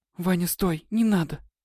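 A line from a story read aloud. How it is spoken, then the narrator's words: Whispered exclamation. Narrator (Russian): Воскликнула шепотом Светлана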